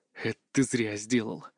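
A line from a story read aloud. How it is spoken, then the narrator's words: Grim, through teeth, in pain. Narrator (Russian): мрачно процедил я, чувствуя, как рука пульсирует от боли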